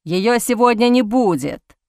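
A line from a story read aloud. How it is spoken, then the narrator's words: Growling undertone. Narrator (Russian): с рычащими нотками проговорил ульф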